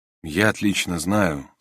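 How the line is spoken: Quiet speech. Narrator (Russian): сказал тихо

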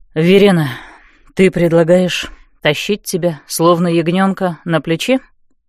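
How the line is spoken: Tired question. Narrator (Russian): устало спросил магистр

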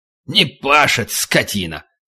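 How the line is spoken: Driver snorting. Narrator (Russian): Шофер снова хмыкнул

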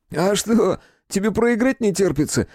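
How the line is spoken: Laughing. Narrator (Russian): рассмеялся Рыжий

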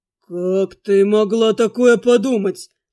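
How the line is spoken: Stunned breathless gasp. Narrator (Russian): выдохнул блондинчик ошарашенно

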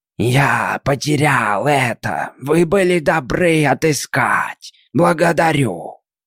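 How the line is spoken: Monster hissing. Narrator (Russian): Чудище прошипело

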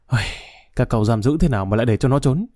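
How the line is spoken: Sighing. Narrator (Vietnamese): Đại tá Thiều thở dài

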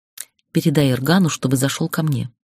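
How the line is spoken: Whispering. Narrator (Russian): шепнула пробегавшему мимо мальчишки помощнику

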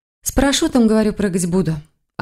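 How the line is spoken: Hiding unhappiness. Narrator (Russian): ответила она, пытаясь не показывать, что на самом деле ей совсем не весело

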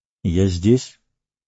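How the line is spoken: Plain. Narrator (Russian): сказал он

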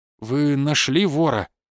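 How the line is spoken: Strained, barely suppressed anger. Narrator (Russian): выдавил из себя Евгений Александрович, едва сдержавшись, чтобы не накричать на собеседника

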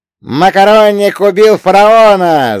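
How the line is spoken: Yelling over gunfire. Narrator (Russian): завопил Фрэнки так, что его крик был слышно даже сквозь грохот перестрелки

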